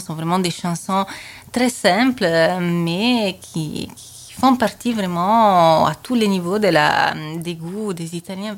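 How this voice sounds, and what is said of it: Foreign accent in French. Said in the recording (French): “ton accent”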